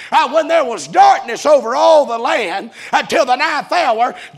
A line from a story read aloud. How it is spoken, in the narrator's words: Jesus Christ cried with a loud voice